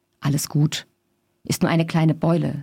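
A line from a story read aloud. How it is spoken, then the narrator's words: Plain. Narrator (German): sagte er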